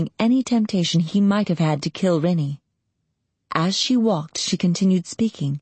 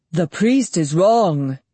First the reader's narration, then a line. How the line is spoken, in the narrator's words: he said, and the voice thundered in bass notes almost too deep to hear, as if he still held partway to the wolf shape